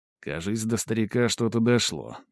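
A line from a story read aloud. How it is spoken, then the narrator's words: Grumbling commander. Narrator (Russian): только и проворчал их воевода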